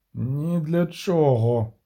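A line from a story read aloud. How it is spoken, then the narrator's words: Gloomy mutter. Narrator (Ukrainian): похмуро буркнув Половинчик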